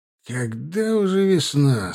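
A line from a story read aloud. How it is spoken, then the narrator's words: Tired voice. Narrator (Russian): спросил Ваганович усталым голосом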